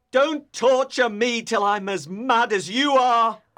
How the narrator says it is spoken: cried Heathcliff

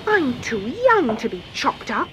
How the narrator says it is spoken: muttered Morinda

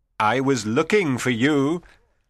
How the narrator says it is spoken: Antonio said merrily

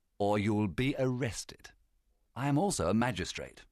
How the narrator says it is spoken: said calmly

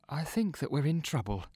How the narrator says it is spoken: whispers Neil

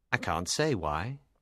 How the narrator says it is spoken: replied smoothly

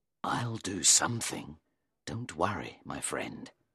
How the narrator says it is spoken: he said under his breath

